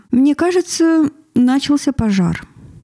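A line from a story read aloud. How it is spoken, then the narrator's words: Casual polite tone. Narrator (Russian): неожиданно произнес Анан светским тоном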